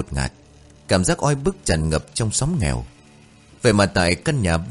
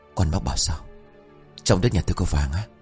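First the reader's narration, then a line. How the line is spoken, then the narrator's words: Frightened hushed middle-aged man. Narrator (Vietnamese): Người đàn ông độ ngoài 50, gương mặt hiện rõ nét lam lũ của thời cuộc, vội tái mặt đưa tay làm dấu nhỏ giọng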